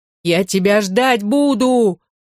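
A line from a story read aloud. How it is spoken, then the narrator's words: Desperate shout. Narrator (Russian): крикнул Алексей с отчаянием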